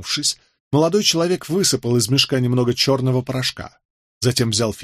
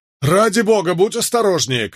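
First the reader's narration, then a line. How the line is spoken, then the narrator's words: Shouted. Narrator (Russian): крикнул кто-то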